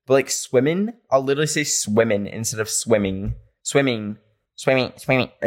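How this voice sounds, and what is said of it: Country accent, dropped -ing endings. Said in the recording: “I can't pronounce words that in an ing ... sounds country ... Maybe it is a country accent”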